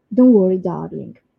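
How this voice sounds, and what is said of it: Fake British accent. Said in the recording (Italian): “Lo dico con l'accento british finto.”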